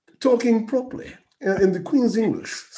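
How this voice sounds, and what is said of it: Put-on received pronunciation accent. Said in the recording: “do the accent again one more time ... received pronunciation ... The RP”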